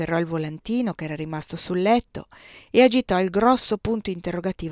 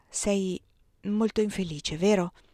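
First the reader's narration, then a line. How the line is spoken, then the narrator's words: Gentle, tender. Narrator (Italian): fece dolcemente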